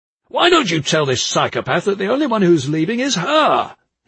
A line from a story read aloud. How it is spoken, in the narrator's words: he roared